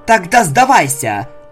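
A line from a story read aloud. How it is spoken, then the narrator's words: Snapping retort, female unicorn. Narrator (Russian): огрызнулась черная ликорн, надавливая на свой клинок, пытаясь пересилить Селестию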